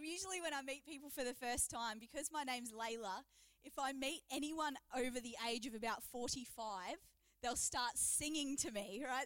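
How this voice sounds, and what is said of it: Broad Australian accent. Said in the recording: “my real Aussie bogan accent, you know, from Victoria”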